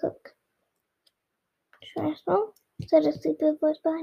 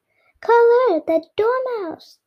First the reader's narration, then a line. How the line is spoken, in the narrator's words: the queen shrieked out